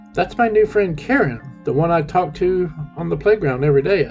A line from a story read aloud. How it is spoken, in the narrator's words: I said